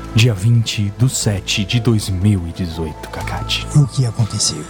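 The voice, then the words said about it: Mysterious, suspenseful voice. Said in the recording (Portuguese): “fazer voz de mistério”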